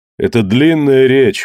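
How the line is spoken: Tired. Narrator (Russian): устало сказал Кидога

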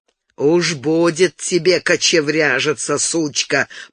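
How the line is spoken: Growl. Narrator (Russian): прорычал он

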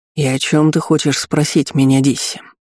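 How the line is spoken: Tired, dry question. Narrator (Russian): усталым голосом суховато спросила Айтерис

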